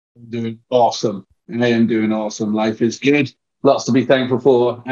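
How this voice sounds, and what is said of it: English accent. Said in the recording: “wonderful English accent and pronunciations ... we don't talk as eloquently as you do”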